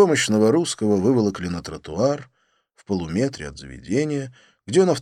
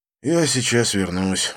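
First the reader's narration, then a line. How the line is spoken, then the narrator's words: Sigh. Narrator (Russian): вздохнул я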